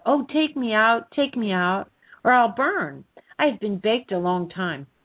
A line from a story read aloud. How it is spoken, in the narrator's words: the bread cried out